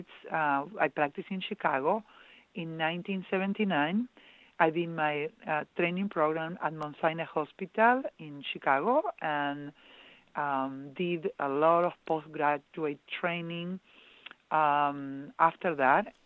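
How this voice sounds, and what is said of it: Argentine Spanish accent. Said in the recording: “as some of you might sense my accent, I am originally from Argentina”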